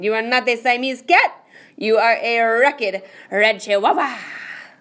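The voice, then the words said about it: Put-on Spanish accent. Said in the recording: “using his very best Spanish accent”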